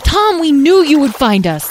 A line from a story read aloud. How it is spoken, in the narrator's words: Lyle and Edwin, who began shouting